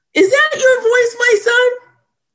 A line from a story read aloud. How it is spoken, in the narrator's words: Saul lifted up his voice and wept